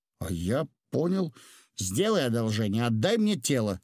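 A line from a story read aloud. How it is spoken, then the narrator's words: Plain young man. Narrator (Russian): сказал голубоглазый юноша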